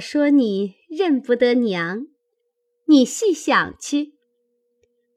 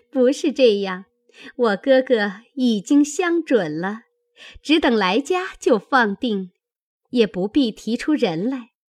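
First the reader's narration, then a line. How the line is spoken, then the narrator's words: Laughing. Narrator (Chinese): 宝钗笑道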